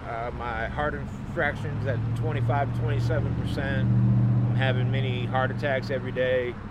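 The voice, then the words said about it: Southern US accent. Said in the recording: “I'm from up here, but I got a southern accent.”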